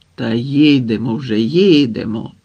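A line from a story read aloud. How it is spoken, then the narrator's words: Calm, unperturbed reassurance. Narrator (Ukrainian): Усе тим самим незворушним голосом заспокоїв його Харлампій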